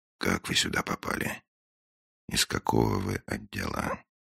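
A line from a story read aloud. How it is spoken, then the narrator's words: Very quiet question after pause. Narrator (Russian): После паузы, очень тихо, Финч спросил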